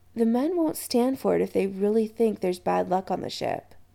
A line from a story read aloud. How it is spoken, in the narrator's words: Adam said quietly